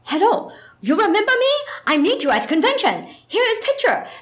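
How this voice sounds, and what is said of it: Put-on Japanese accent. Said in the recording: “my embarrassing Japanese accent”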